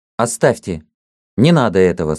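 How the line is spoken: Sharp. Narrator (Russian): сказал он резко

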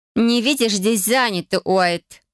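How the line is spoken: Through gritted teeth. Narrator (Russian): процедила Верона Жилье

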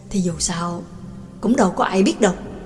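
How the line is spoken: Low whisper. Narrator (Vietnamese): Trương Lập hạ giọng thì thầm

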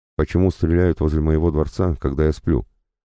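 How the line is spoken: Less nervous questioning. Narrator (Russian): уже не таким нервозным тоном спрашивал Павел Петрович

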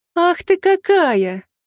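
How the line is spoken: Laughing. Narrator (Russian): Хикари, не удержавшись, рассмеялась

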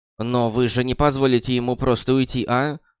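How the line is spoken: Snorting, skeptical. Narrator (Russian): хмыкнула Найтингейл

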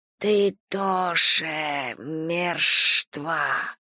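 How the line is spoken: Dry rustling hiss. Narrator (Russian): голосом, в котором слышался шелест сухих листьев на кладбищенском дереве, прошипела

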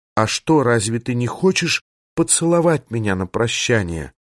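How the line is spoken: Whispered question. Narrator (Russian): Исса шепотом спросила

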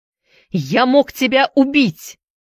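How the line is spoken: Shouted. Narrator (Russian): закричал вампас

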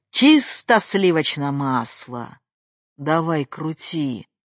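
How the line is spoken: Dry, curt. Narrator (Russian): сухо отзывалась она

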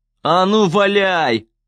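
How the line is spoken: Booming. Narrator (Russian): прогремел Гейб

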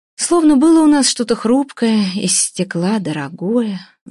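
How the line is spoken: Sighing. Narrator (Russian): вздохнула Евгения Михайловна

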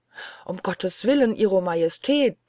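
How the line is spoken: Steward calling out. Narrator (German): ruft der Haushofmeister

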